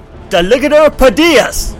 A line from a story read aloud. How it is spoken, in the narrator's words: he heard one of the Weasley twins shout